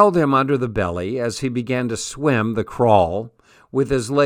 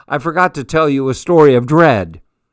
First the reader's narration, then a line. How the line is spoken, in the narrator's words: shouted above his splashing